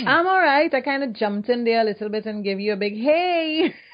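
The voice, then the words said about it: Trinidadian accent. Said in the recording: “See, now what we're talking about with that accent? I love your accent”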